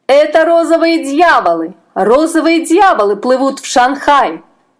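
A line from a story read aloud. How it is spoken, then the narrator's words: Shrill warning shouts, boatmen. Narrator (Russian): закричали лодочники пронзительными голосами, предупреждая моряков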